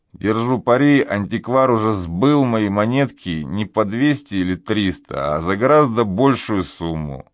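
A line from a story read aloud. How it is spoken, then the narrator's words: Toothless mumble, old man. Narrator (Russian): прошамкал он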